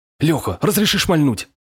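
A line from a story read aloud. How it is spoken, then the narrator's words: Pleading. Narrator (Russian): взмолился Шабанов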